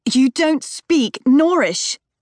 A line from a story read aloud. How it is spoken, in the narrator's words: Lee shouts